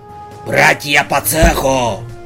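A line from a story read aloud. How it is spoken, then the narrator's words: Loud bark. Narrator (Russian): гаркнул Синицын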